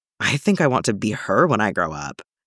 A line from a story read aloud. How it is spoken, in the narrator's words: John said under his breath